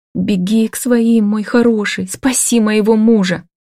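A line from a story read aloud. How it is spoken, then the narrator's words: Sobbing plea. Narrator (Russian): рыдая, прошу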